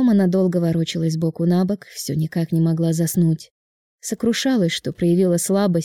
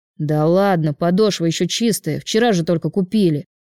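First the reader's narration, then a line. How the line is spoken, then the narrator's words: Brother snorting. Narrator (Russian): фыркнул брат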